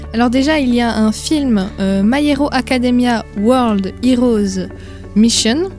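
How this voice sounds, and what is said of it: English accent on a title. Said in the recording (French): “désolé pour l'accent anglais”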